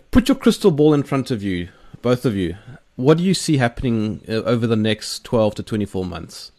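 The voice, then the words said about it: Rough-sounding South African accent. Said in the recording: “we we South Africans have got a very grumpy accent, very rough sounding accent ... your accent's a powerful one”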